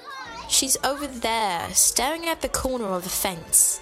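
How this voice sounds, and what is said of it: Child with British accent. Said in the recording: “had a British accent”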